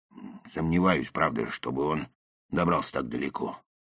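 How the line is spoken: Father's dull, hollow tone. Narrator (Russian): продолжал отец тем же глухим тоном

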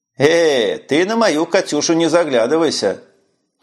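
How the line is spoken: Cheerful. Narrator (Russian): весело отреагировал директор

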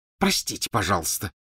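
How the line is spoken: Hissed. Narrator (Russian): прошипела Гермиона

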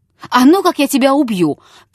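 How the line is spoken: Sudden shout. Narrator (Russian): крикнул он вдруг

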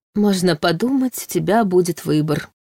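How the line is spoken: Snorting, skeptical. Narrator (Russian): хмыкнул Войтах

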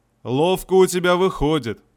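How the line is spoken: Deep bass voice. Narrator (Russian): пробасил кузнец

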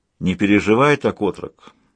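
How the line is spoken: Calm tone. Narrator (Russian): спокойным тоном произнес Людзе

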